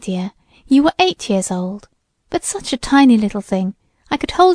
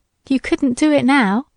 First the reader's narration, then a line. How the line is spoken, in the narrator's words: laughed Alice